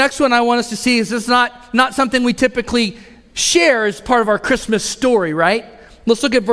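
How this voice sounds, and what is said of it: Usual voice. Nothing is said of it.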